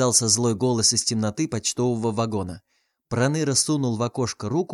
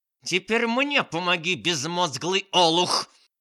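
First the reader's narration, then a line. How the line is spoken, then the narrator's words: Aunt barking. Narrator (Russian): рявкнула тетушка Манефа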